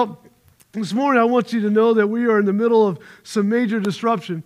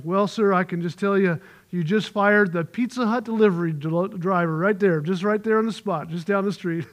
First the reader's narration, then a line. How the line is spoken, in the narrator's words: muttered and he said